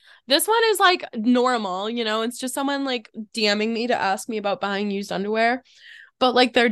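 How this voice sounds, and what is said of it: Usual voice. Nothing is said of it.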